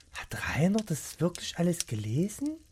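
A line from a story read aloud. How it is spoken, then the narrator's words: Quiet question to himself. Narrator (German): fragte sich leise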